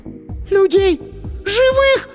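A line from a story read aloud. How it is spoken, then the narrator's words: Shriek. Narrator (Russian): Сонька взвизгнула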